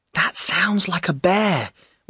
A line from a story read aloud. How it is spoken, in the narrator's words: whispered Joe